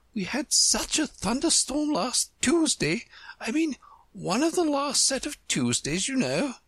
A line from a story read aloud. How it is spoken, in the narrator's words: the White Queen said, nervously